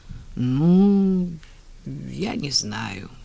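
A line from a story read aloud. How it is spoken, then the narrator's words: Drawled. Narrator (Russian): протянула она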